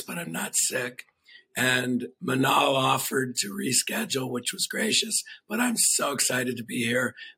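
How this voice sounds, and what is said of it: Hoarse voice. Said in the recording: “my voice is hoarse. Have a little laryngitis”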